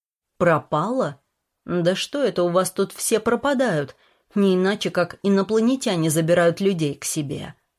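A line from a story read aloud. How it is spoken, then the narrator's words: Gloomy joke. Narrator (Russian): мрачно пошутил Петр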